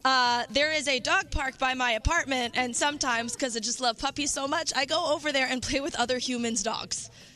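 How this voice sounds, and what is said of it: Strained party girl voice. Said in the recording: “making fun of my party girl voice ... I was screaming ... that's why I have party girl voice”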